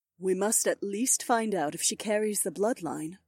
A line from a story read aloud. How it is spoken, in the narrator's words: Aliona answered in a kind voice